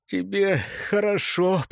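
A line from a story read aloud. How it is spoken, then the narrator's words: Wheezy, muffled through bandage. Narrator (Russian): просипел Лыкаш сквозь повязку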